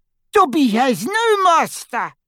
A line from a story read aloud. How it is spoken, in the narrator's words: squealed the elf